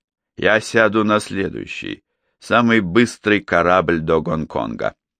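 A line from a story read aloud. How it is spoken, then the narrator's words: Plain. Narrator (Russian): ответил он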